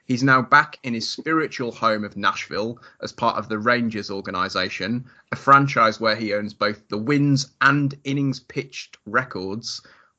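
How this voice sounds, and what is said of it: Northern English accent. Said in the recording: “when you say it in a British accent ... I'm from the north of England”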